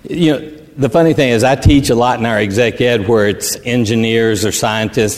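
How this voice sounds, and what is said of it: Texan accent. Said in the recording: “I've got this Texas accent ... I'm speaking Texan”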